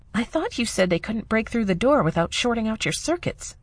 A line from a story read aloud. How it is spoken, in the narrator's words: Nissa whispered